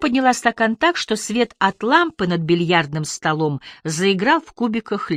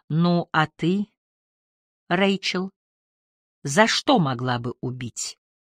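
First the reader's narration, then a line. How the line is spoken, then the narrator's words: Quiet question. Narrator (Russian): негромко спросил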